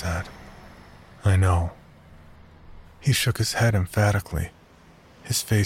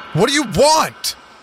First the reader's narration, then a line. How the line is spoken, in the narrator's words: I shouted